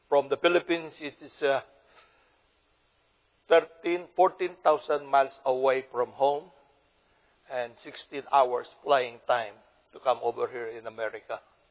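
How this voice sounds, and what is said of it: Filipino-accented English. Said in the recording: “my Philippine hillbilly kind of an accent as far as English is concerned”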